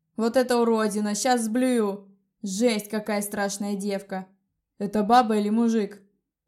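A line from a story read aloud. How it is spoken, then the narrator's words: Deep bass voice. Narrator (Russian): пробасил Тедди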